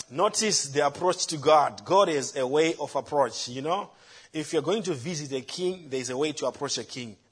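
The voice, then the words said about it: Speaks with a noticeable accent. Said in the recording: “Forgive my accent”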